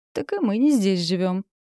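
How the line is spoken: Laughing. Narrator (Russian): рассмеялась Синица

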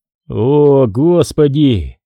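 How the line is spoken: Groan. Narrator (Russian): простонал Грофилд

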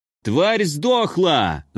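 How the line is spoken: Yelling. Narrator (Russian): заорал огневик

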